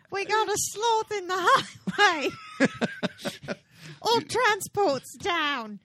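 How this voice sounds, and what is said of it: Put-on accent. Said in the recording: “Don't ask about my accent.”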